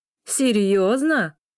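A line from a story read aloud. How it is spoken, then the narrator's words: Laughing. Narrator (Russian): выговаривает сквозь смех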